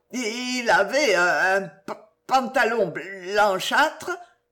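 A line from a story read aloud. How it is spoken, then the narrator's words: Badly mumbled stammering. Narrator (French): répondit l'idiot, toujours en bredouillant affreusement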